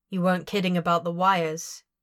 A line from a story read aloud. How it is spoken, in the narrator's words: he asks flatly